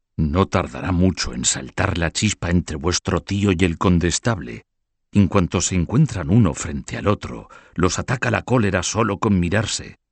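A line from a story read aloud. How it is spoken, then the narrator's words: Whispered in ear. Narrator (Spanish): El canciller Esteban de Mornay susurró al oído del joven conde de La Marche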